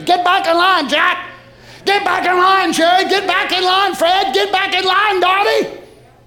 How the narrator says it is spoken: the voice of God through the Holy Ghost will scream

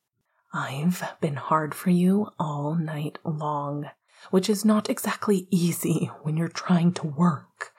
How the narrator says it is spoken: Remus whispered

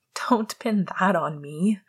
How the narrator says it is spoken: Sirius laughed

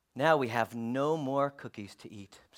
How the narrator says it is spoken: said Toad sadly

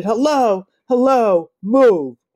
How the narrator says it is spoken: I sucked my teeth louder and shouted

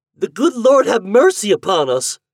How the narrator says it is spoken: exclaimed Marianne

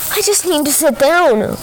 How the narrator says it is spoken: exclaimed

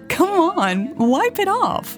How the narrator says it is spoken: Karen yelled

